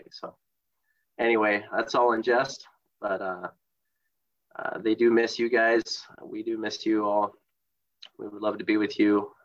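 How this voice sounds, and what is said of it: Congested voice, sounds like a cold. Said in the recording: “sounding a bit like I have a cold. I'm a little bit under the weather. And so you can hear that in my voice”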